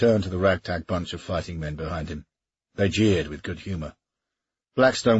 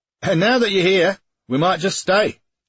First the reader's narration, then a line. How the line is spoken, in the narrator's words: shouted one of the men